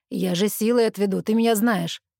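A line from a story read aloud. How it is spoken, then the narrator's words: Angry male retort. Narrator (Russian): Зло бросает он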